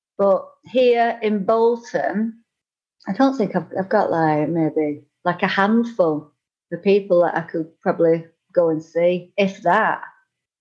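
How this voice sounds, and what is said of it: Northern English accent. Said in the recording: “lovely Northern English accent”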